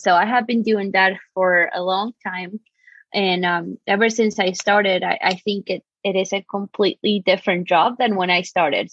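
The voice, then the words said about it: Argentine accent. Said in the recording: “I'm originally from Argentina, so that's why you might hear a crazy accent.”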